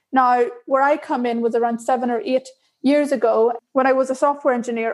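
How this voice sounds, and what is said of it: Irish accent. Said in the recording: “As you can probably tell, I'm Irish by my accent.”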